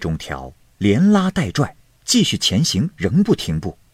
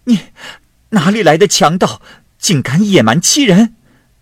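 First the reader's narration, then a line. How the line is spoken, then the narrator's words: Angry shout, woman. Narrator (Chinese): 妇人生气的大喊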